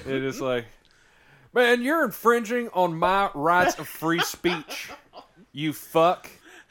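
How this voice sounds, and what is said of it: Put-on Southern US accent. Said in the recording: “It's always a southern accent. ... It's a southern accent. ... I was going to use the southern accent.”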